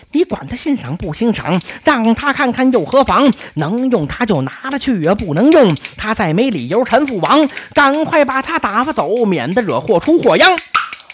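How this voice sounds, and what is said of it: Quiet muttering voice. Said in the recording (Chinese): “小声细嘟囔”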